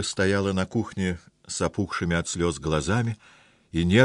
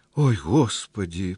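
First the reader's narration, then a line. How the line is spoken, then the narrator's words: Moaning. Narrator (Russian): простонала Ольга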